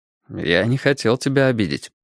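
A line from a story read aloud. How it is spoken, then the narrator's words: Calm. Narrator (Russian): спокойно продолжал Страйк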